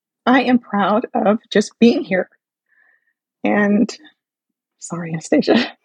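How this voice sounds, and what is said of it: Shaky, emotional voice. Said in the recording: “my voice is shaking”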